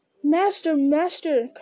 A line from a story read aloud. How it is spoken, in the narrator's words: cried Sam